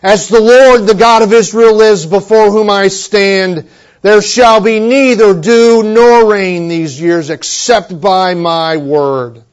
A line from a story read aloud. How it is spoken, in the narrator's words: the prophet Elijah had walked into Ahab's palace, you recall, and thundered